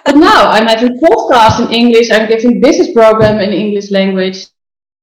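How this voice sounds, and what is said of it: Dutch-accented English. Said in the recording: “I know I don't have like the English accent. No, I'm from Holland. I'm not from England.”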